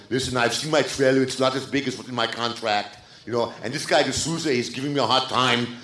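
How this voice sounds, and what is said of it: Arnold Schwarzenegger impression. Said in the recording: “I'm famous from Silver Lake to Malibu for my Arnold impression. And I've punked so many studio executives as Arnold”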